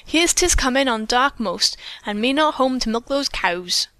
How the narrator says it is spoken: she exclaimed

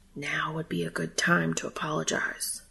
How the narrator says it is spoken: his traitorous brain whispered

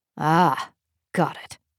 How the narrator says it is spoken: he grunted

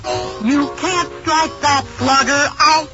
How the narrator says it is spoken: the kids all shout

